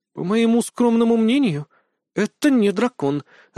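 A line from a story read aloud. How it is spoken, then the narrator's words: Confused speech. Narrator (Russian): растерянно произнесла Джинджер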